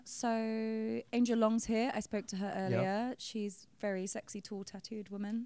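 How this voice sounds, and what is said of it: British accent. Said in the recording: “I love the sound of the British accent.”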